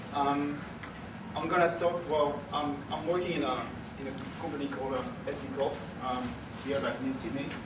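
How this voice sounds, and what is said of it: French-influenced English accent. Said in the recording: “excuse my accent ... I was raised in France for 20 years, so I think it has definitely a mark in the way I speak”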